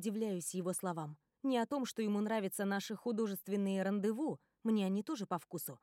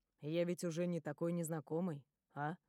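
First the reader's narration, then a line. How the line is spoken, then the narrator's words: Quiet question. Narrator (Russian): тихо спрашивает Джек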